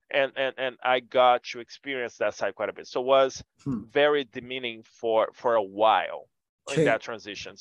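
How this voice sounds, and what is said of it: Foreign, non-native accent. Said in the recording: “as soon as I talk and you hear my accent, you know I'm not from here.”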